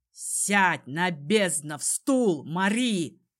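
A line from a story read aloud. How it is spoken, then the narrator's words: Barked. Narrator (Russian): рявкнул он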